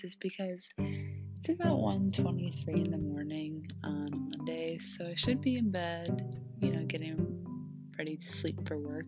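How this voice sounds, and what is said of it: Very low, quiet voice. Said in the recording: “The reason why I'm speaking in a very low voice”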